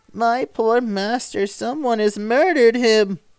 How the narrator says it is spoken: cried he, sobbing

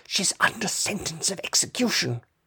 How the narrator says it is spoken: put his mouth close to her ear, and whispered

